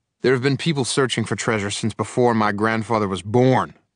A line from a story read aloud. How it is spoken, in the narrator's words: my uncle snapped impatiently